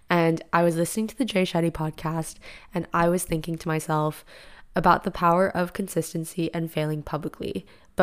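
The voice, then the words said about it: Raspy, slightly deeper voice. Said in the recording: “my voice sounds like this because I just woke up ... my voice is like a little bit raspy, a little bit deeper ... if you are wondering why I sound like I'm sick, I'm not”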